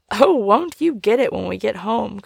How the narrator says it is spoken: cried the young gentleman

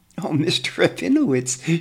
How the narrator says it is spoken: she says with a chuckle

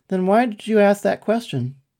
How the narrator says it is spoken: Dribbler laughed

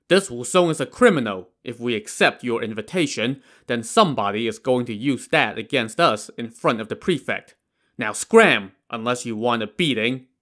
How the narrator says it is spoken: instead said angrily

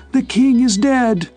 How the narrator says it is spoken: A girl screaming and then shouting

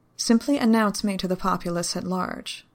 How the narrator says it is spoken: the Dark said

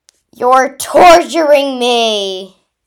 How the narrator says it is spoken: yelled the middle-aged man

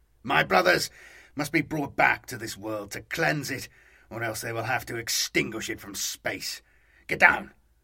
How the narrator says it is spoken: This last was in a hiss

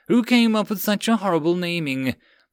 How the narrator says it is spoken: Blake groaned at Ford's reminder

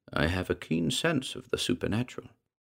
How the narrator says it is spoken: Van Melsen tipped his head towards her and said, in an even tone

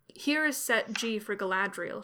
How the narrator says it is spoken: she said

